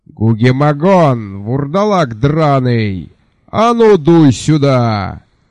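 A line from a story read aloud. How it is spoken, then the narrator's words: Thunderous shout. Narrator (Russian): прогремел над пляжем, как нормальный человеческий крик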